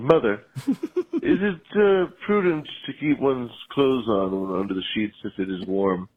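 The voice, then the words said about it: Put-on British accent. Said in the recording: “in my British accent”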